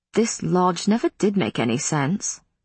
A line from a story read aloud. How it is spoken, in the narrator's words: Matthew said in a conversational tone that was nevertheless intended to sting